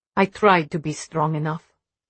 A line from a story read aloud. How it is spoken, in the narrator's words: Mom said quietly